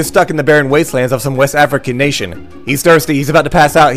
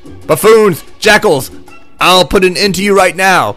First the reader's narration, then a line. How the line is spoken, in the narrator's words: we see Jakara shout